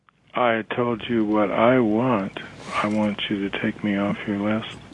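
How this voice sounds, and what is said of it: Low, quiet, intimidating voice. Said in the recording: “Why are you talking so low like that? Do you think that's more intimidating”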